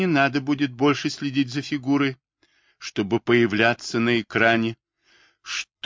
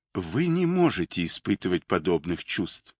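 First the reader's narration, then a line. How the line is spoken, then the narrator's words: Calm whisper. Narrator (Russian): спокойно прошептал голос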